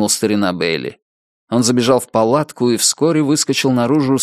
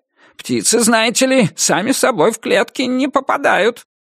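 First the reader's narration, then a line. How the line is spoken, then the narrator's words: Rat's squeak. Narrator (Russian): Крыса что-то пропищала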